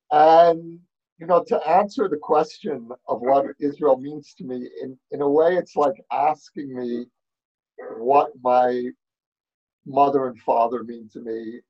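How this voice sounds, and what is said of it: New York accent. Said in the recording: “as you can hear from my accent, I grew up in New York”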